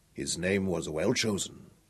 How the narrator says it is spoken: Al-Alama murmured to himself

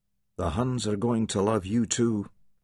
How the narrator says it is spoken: Andrew murmured

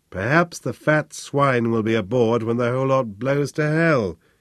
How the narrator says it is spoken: he thought wearily

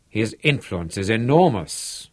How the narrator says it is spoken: Blaine exclaimed

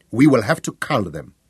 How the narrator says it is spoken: said curtly

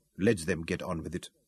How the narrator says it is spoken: she told herself firmly

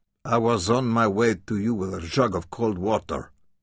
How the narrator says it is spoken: said she gruffly

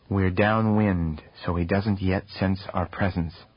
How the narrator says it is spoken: said the sage softly

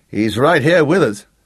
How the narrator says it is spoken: Gareth told Jake anxiously

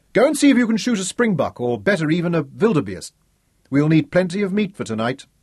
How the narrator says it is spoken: still smiling, Zuga shouted to Ralph

